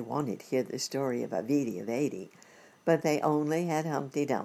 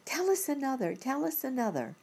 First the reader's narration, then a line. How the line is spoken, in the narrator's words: the children clapped their hands and cried